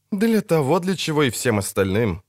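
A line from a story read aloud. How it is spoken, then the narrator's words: Muttered. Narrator (Russian): буркнул Гаксо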